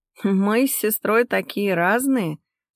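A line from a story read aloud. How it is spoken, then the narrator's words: Laughing into phone, mother. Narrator (Russian): смеялась в трубку мама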